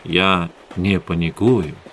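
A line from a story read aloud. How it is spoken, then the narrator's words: Gentle. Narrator (Russian): мягко сказал Эдгар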